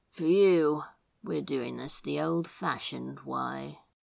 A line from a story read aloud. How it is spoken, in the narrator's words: he murmured